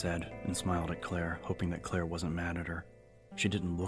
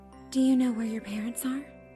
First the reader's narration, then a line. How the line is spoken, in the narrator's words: Claire asked in the same sweet tone